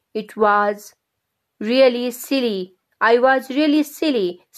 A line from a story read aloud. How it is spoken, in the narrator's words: said Granny